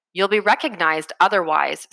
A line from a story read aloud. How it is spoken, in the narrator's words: said Schmall